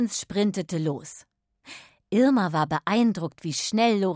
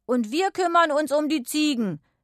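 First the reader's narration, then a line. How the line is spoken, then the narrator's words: Called out. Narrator (German): rief Lorenz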